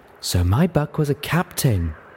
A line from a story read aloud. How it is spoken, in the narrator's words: Velvet Remedy purred